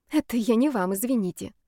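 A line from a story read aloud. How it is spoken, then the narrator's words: Quiet. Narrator (Russian): тихо сказала Мира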